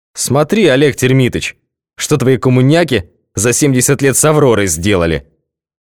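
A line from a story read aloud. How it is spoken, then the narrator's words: Loud jedi. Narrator (Russian): сказал громко джедай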